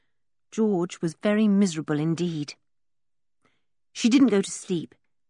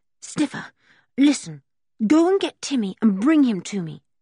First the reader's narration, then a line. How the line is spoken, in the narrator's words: said George breathlessly